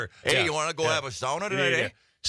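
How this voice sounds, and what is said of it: Put-on Yooper accent. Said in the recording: “I speak English and Youper.”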